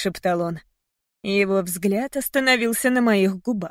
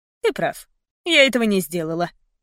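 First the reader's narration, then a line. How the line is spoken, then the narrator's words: Cold, indifferent. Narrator (Russian): равнодушно-холодно сказала я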